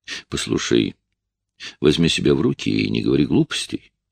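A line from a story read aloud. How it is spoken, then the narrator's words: Gentle, soothing. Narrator (Russian): ласково сказал я, пытаясь ее успокоить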